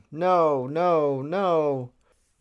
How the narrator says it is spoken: she's sobbing

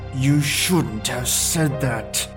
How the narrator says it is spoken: he growled through his teeth

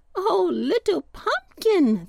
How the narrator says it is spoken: they cried

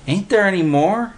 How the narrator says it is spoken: Willie whined

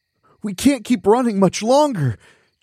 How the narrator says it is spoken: Chunker groaned

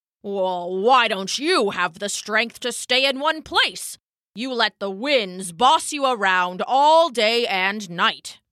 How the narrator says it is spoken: the oak rumbled back

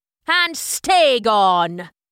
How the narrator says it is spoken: he bellowed

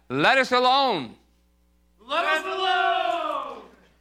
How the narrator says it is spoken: he cried out

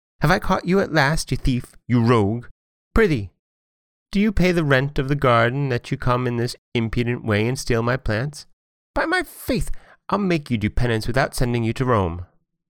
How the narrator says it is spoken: the ogress met her, and in a furious rage exclaimed

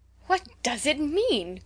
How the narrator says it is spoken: cried the girls

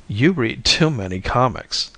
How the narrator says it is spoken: I laughed it off

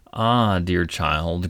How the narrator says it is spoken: groaned Midas dolefully

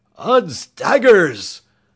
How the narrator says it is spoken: thundered Sir Hokus so suddenly

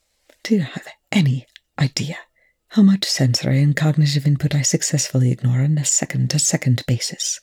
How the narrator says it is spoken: Rush asked finally, his voice almost inaudible

